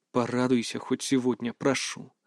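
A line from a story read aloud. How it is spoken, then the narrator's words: Soft, gentle. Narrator (Russian): мягко произнес я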